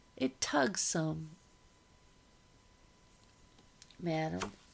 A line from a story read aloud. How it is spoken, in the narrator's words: said